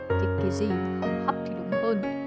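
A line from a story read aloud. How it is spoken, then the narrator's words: Muttering. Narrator (Vietnamese): tôi lẩm bẩm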